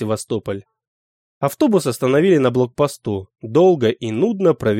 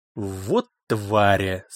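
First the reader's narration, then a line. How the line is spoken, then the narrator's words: Elderly man hissing through teeth. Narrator (Russian): сквозь зубы прошипел пожилой шофер-таксист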